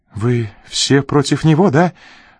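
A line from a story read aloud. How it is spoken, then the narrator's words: Sudden pleading. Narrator (Russian): вдруг взмолилась Рита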